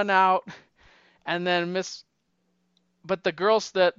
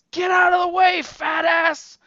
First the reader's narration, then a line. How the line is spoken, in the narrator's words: he just yells, he yells